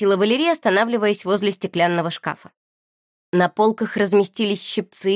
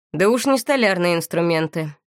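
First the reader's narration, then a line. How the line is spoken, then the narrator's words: Gloomy tone. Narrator (Russian): мрачноватым тоном произнес Моро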